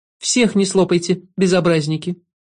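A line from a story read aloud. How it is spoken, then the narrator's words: Kindly laughing. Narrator (Russian): Шут по-доброму рассмеялся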